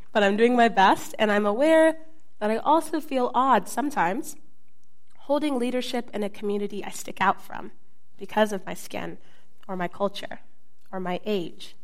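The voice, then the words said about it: Voice worn, partly lost. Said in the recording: “I lost my voice this week”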